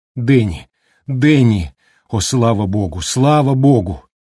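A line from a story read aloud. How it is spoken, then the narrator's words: Moaning with joy and pain. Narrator (Russian): Она застонала от радости и боли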